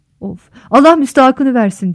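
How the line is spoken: Shouted. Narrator (Turkish): diye bağırdı

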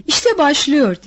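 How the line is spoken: Shouting. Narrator (Turkish): diye bağırdı

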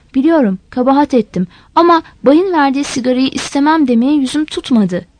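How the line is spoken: Plain. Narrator (Turkish): dedi

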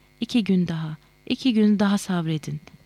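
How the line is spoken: Almost begging. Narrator (Turkish): diye adeta yalvarıyordu

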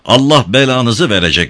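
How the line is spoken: Shouted. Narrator (Turkish): diye bağırdı iddiasıyla Tayyip

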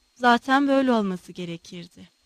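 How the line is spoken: Murmured. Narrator (Turkish): diye mırıldandı

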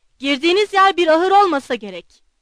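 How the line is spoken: Shouted. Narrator (Turkish): diye bağırdı

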